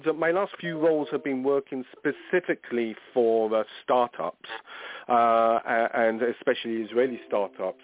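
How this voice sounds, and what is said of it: Non-American accent. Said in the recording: “I'm based in the United States, which you probably can't tell from this accent”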